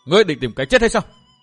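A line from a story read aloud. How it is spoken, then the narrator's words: Loud shout. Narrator (Vietnamese): Thu Nhi quát to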